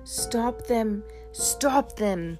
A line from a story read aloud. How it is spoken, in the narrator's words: would shout